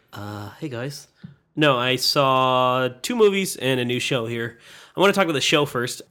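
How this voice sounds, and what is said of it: Nasal, congested voice. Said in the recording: “my voice sounds a little nasally. I'm getting over a cold”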